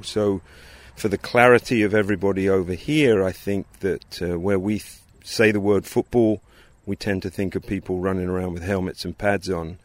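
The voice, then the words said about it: English accent. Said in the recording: “his accent, ... grew up in England”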